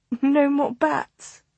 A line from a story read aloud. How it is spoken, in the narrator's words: she said with a shaky laugh